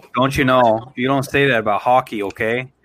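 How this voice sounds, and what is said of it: Put-on Wisconsin Midwestern accent. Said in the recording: “You sound like my family from Wisconsin.”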